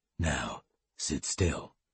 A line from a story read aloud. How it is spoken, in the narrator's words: said quietly